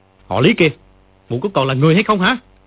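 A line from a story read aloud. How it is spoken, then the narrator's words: Furious shout. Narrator (Vietnamese): Dương Quá giận không để đâu cho hết, quát lên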